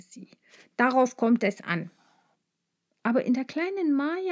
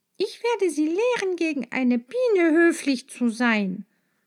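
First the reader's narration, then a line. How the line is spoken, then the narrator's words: Called out. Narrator (German): rief sie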